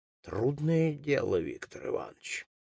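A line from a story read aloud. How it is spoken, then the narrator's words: Sighing speech. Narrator (Russian): вздохнув, сказал Флегонтов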